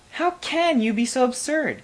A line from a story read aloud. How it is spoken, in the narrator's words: cried the queen